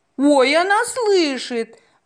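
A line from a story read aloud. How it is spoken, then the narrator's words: Two voices exclaiming in unison. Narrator (Russian): в один голос воскликнули женщина и Розалия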